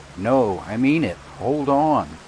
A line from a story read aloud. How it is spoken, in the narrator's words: shouting